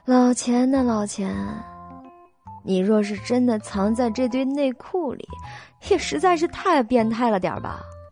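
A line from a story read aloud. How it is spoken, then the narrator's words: Sighing. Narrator (Chinese): 他顿时叹了口气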